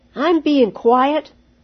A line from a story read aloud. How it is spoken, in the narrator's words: Stephen said crossly, forgetting to whisper